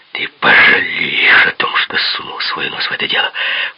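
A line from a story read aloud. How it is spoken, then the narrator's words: Hissed threat in ear. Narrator (Russian): прошипел мне на ухо Крюгер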